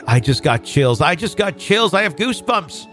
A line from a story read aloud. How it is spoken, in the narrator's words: my mom frantically blurted